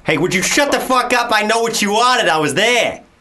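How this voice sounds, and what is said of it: Put-on Boston American accent. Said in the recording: “Do your Boston. Your Boston was good.”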